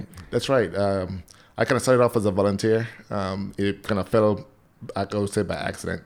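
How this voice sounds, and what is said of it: Non-local foreign accent. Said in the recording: “people are listening to your voice and going, that's not a Hanover accent”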